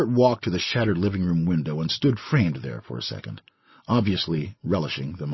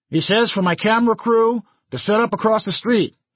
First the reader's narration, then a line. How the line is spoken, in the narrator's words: he yelled